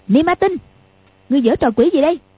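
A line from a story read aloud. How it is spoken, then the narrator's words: Shouting. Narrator (Vietnamese): quát lên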